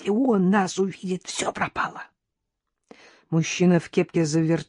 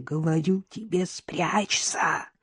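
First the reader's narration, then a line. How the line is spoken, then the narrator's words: Hissed. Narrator (Russian): прошипела Надежда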